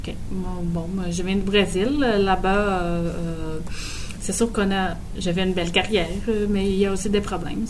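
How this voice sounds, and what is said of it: Brazilian accent speaking French. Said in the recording (French): “ton accent qu'on entend là, il vient d'où? ... De Brésil.”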